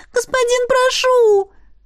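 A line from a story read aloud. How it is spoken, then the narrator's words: Girl pleading. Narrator (Russian): взмолилась девушка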